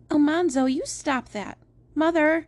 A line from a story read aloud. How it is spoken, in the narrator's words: Eliza Jane cried out